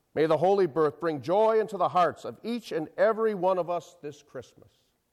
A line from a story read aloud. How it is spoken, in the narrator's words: He in a loud, high-pitched voice recited flatly